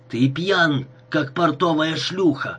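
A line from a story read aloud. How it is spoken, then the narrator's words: Growled. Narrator (Russian): прорычал он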